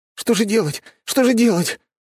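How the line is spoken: Frightened wailing. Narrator (Russian): испуганно запричитал ее брат

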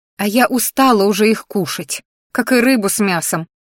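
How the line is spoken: Snorting. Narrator (Russian): фыркнула

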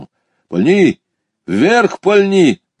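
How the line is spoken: Shouted urging. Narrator (Russian): крикнул мне товарищ

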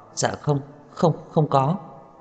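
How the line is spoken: Frightened, hurried speech. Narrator (Vietnamese): Tiểu Ninh hoảng sợ, vội vàng nói

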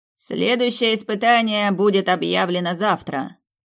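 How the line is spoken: Loud announcement. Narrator (Russian): громко произнес распорядитель

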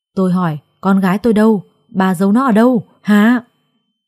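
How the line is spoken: Sudden sinister laugh. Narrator (Vietnamese): Đột nhiên bà ấy bật cười, khuôn mặt cũng thay đổi, không còn là người mẹ phúc hậu

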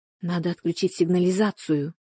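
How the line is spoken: Whisper. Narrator (Russian): шепнула она

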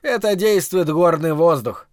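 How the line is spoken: Laughing. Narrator (Russian): говорили ему, смеясь

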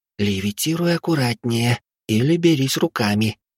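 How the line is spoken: Whisper. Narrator (Russian): шепотом произнесла Вилли

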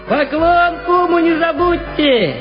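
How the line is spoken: Old man shouting after. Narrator (Russian): крикнул вдогонку дед Аверя

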